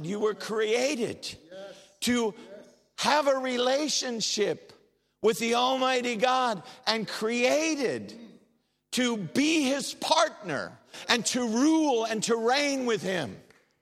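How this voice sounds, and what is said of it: American accent. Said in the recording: “I'm an American. I know you can't tell by my accent, but I am.”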